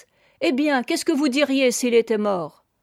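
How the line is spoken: Fierce conclusion. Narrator (French): elle concluait, d'un ton féroce

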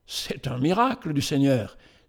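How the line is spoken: Emotional exclamation. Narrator (French): s'écria Ben-Hur avec émotion

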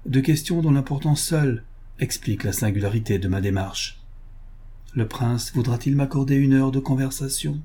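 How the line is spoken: Cold. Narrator (French): dit froidement Olaf

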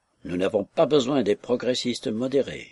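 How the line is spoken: Grumbling. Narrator (French): grommela Markelov

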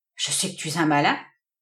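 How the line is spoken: Murmured, slightly vexed. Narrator (French): murmura Toby un peu vexé

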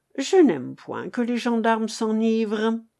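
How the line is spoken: Grumbled through teeth. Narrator (French): grommelait entre ses dents le reporter

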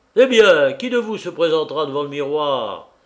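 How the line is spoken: Crying out. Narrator (French): s'écria Muirland

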